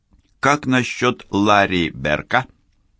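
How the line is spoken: Plain. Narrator (Russian): спросил Райм

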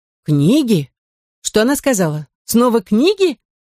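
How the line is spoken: Distant shout. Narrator (Russian): прокричал из глубины квартиры знакомый голос

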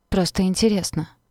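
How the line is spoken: Quiet. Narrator (Russian): тихо сказала сестра

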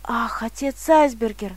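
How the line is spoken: Excited telling. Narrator (Russian): начал взволнованно рассказывать Давид

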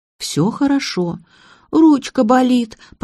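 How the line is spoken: Childlike whimpering. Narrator (Russian): по-детски захныкала девушка

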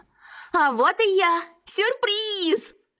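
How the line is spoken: Joyful familiar voice. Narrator (Russian): Радостно объявился знакомый голос

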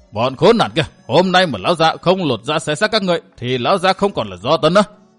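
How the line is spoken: Enraged roar. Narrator (Vietnamese): Thấy thuộc hạ bị giết chết liên tục, Hắc Ưng Do Tấn gầm lên

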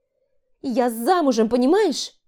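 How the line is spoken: Shouted. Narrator (Russian): крикнула

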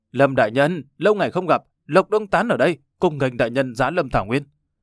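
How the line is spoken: Stiff accented shout. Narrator (Vietnamese): Hắn dùng tiếng đại hoa với ngữ điệu cứng ngắc hét lên

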